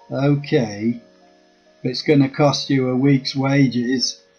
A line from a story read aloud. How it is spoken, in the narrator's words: I laughed, and then retorted